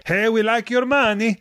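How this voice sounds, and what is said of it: Put-on Swedish accent. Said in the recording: “That was a good Swedish accent.”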